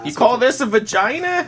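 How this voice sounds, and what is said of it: Stereotyped Jewish accent impersonation. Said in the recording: “That's the only impersonation for Jewish people I know”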